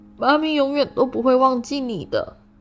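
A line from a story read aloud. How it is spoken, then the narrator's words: Crying. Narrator (Chinese): 海格终于忍不住哭了出来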